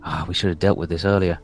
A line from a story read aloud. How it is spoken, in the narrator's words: one of them mutter to himself